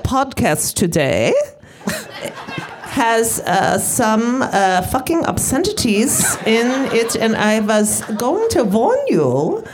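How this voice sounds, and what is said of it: Put-on German accent. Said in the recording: “can we hear your German accent? ... German accent”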